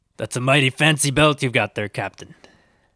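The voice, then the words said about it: Put-on pirate accent. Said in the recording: “I've kind of inherited your pirate accent here”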